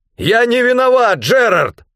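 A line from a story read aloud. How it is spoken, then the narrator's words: Hurried shout. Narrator (Russian): Только и успел выкрикнуть я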